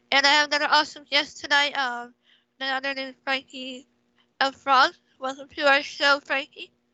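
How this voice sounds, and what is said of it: Unwell-sounding, affected voice. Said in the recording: “You have to excuse my voice.”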